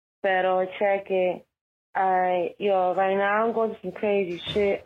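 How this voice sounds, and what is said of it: Raspy, just-woke-up voice. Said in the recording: “I just woke up, so sorry if I sound kind of raspy”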